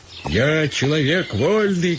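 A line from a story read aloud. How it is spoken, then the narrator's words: Shouting at horses. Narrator (Russian): кричал он на лошадей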